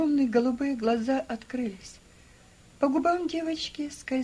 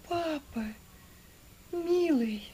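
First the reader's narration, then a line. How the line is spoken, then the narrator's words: Barely audible. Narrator (Russian): Чуть слышно сказала она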